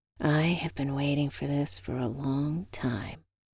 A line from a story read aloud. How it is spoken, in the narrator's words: I whispered